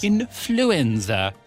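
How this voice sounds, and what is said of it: Bad put-on Italian accent. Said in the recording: “Doing a bad Italian accent? ... weird Italian impression”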